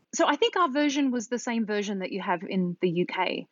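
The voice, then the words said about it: Australian accent. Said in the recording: “I grew up in Australia, if you can't tell from my accent. ... From Sydney, the northern beaches of Sydney.”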